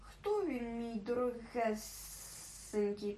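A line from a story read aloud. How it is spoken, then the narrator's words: Hissed. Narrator (Ukrainian): просичав Голлум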